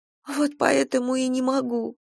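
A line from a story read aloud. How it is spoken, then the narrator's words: Sobbing. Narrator (Russian): всхлипнула Кира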